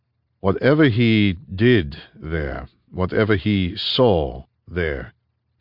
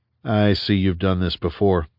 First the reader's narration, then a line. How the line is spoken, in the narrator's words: Rhys said